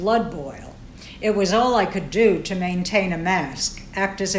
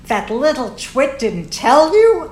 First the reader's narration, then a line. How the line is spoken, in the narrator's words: screeched